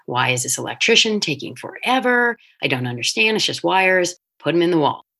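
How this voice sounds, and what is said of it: Exasperated, attitude-laden tone. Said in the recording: “can you hear the attitude in my voice right now?”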